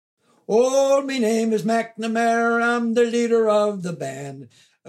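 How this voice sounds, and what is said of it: Put-on Irish brogue, singing. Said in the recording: “My dad doesn't naturally sing nor speak in an Irish brogue, but he does often find a reason to take on the accent of his motherland”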